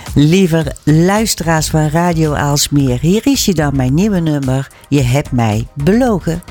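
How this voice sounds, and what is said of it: Brabant Dutch regional accent. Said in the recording (Dutch): “Brabant ... Ik ben ook een Brabantse ... dat kan je horen ... die hebben allemaal een accent”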